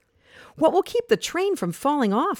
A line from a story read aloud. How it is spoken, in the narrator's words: Lily asked nervously